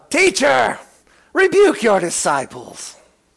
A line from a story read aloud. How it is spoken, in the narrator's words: some of the Pharisees cried out to him from the crowd